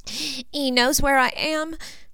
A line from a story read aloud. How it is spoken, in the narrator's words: Jinny sobbed